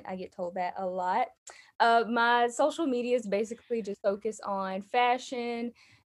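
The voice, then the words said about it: Alabama Southern accent. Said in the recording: “I'm from Alabama. You guys can probably hear that in my accent.”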